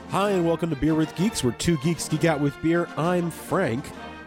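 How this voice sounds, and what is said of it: Stuffy, congested voice. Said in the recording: “as you can probably tell, I've got a little bit of a cold.”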